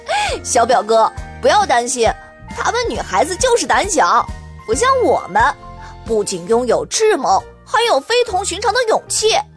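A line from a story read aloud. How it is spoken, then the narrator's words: Chuckling. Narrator (Chinese): Kevin 反而嘿嘿一笑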